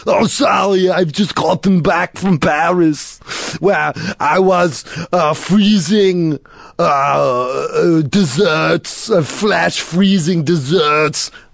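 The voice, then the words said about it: Put-on accent sounding a little French. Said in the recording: “sound a little French there ... your usual Austrian accent sounds a little French.”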